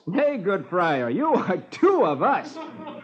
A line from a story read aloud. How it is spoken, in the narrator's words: Robin laughs